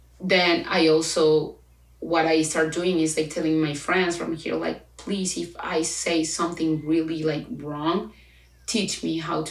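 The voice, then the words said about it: Spanish accent in English. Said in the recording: “right now I'm actually proud of my accent ... Of course I have an accent. For like 24 years of my life, I speak Spanish.”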